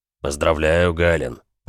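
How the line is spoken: Deep bass, smiling. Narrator (Russian): пробасил Олаф, улыбаясь

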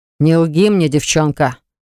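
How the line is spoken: Growl. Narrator (Russian): рыкнул повелитель

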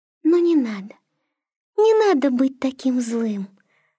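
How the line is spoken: Gentle, affectionate. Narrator (Russian): ласково заговорила она

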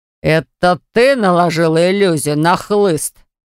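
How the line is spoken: Roar. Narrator (Russian): взревел он

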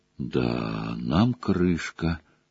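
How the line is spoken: Dejected voice. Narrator (Russian): упавшим голосом сказал он

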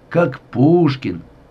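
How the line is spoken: Drawling, wounded man. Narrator (Russian): протянул раненый

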